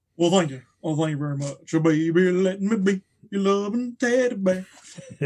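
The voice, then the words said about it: Elvis Presley impression. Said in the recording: “Do an Elvis impression.”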